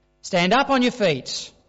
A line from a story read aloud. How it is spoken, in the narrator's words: Paul called out